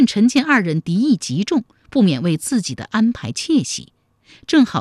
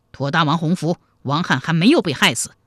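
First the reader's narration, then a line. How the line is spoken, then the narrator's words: Cold. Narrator (Chinese): 王翰冷冷地说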